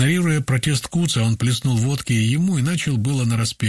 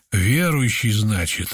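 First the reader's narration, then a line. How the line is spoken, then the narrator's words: Leader's insinuating question. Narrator (Russian): вожак и вкрадчиво поинтересовался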